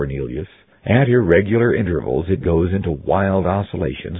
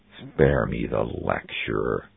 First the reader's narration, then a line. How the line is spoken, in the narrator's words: snarled Anglesey